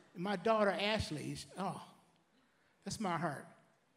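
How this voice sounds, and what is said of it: Choked-up emotional voice with pauses. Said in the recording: “when you pause, that means you're getting choked up”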